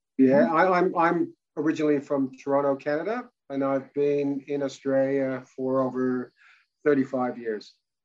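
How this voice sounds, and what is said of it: Strong hybrid Canadian-Australian accent. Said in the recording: “you've still got such a strong accent ... it's a hybrid accent now”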